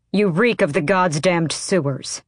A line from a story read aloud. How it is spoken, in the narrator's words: Adian snapped